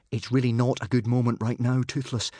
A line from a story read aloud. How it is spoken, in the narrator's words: said Hiccup nervously